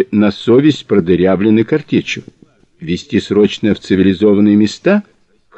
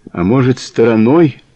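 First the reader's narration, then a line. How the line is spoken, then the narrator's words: Hopeless questioning tone. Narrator (Russian): Безнадежным тоном поинтересовался кандидат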